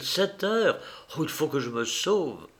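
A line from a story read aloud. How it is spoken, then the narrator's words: Exclaimed. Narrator (French): s'écria-t-elle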